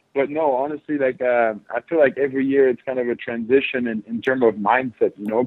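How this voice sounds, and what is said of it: Slight French accent. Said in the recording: “I have a little bit of an accent because my first language is French”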